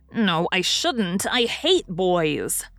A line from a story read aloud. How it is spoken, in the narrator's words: said Nan fiercely, for her hand still smarted